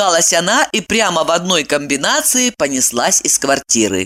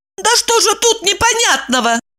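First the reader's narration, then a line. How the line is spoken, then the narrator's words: Sharp shout. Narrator (Russian): прикрикнула Евдокия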